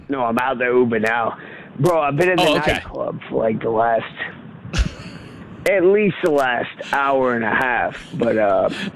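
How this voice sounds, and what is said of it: Voice sounds a little drunk. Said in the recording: “you sound like your voice is a little bit hammered”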